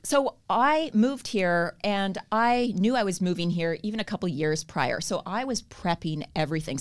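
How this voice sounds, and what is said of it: Canadian accent. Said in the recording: “I have a Canadian accent ... you still sound as Canadian as they come”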